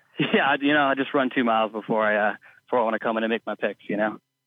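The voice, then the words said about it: Slightly out of breath. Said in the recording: “You sound a little out of breath.”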